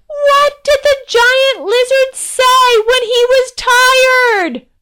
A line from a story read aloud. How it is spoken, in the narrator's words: Cupping her hands, the princess shouted